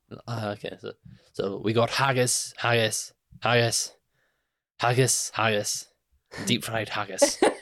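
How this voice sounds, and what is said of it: Put-on Scottish accent. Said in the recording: “Can you do Scottish accent? ... like the Monty Python sketch”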